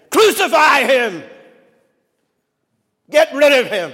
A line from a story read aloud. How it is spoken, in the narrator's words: the people who cheered so loudly that day, in just a few days, are shouting